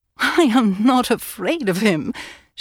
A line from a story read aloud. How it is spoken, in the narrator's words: she laughed